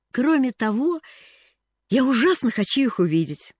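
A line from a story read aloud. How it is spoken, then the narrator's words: Exclamation. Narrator (Russian): воскликнула она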